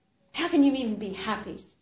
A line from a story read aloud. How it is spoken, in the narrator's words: suddenly he just blurted out, and he just said